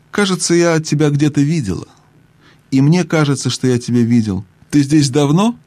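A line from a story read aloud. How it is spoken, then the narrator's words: Sleepy, very calm voice. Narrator (Russian): произнесла немного сонным и каким-то очень спокойным голосом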